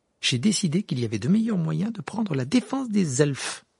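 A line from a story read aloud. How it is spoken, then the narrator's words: Haughty retort. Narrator (French): répliqua Hermione d'un ton hautain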